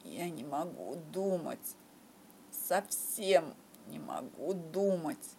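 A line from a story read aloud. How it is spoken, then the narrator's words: Moaning. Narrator (Russian): простонал в ответ Шерлок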